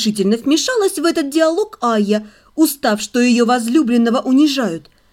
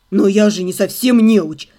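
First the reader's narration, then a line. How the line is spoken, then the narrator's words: Flustered babbling. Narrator (Russian): залепетал совершенно потерявшийся от этого напора Кайл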